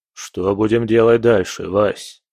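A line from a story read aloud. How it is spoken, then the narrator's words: Plain question. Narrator (Russian): спросил Волков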